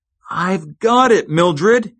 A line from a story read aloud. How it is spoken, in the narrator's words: exclaimed